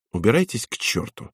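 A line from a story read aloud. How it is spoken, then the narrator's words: Calm. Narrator (Russian): спокойно сказал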